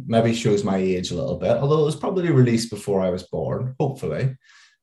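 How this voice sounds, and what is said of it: Softened Northern Irish accent. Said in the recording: “my accent, although it's dulled quite a lot since I've lived in London a long time, is I am from just outside Belfast”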